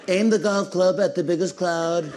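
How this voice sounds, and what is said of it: Poor imitation of another person's voice. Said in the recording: “That is probably the worst Trump impression. That one is bad.”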